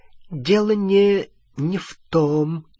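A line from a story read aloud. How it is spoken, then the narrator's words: Ghost muttering. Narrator (Russian): пробормотало привидение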